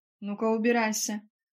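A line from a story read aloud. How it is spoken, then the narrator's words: Growled. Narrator (Russian): прорычала Фанни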